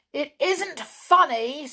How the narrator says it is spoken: said Tom angrily

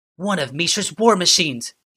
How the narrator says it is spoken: yelled Ashnod

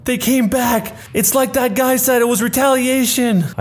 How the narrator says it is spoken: somebody yelled out

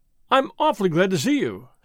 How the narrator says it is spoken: said the young man, eagerly

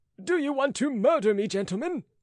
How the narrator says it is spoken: cried Rateau

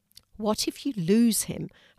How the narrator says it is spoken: her mum asked

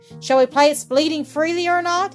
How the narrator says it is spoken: he asked cheerfully

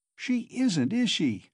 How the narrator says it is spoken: cried Razumihin, delighted to get an answer out of him

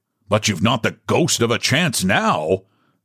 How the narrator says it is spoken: said Charles roughly

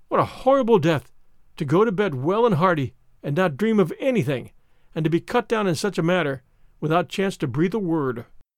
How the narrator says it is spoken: she said, in gasps

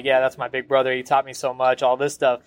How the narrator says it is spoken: he kind of laughed and was like

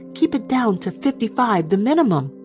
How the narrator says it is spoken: he shouted

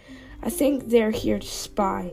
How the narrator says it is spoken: he growled softly

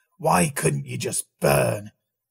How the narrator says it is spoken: he snarled

